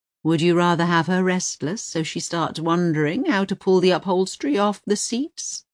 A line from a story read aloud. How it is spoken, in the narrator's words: Pavana says calmly